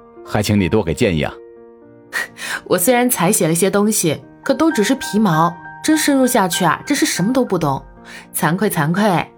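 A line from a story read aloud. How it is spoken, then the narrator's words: Smiling thanks. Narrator (Chinese): 陈谷笑着又致谢道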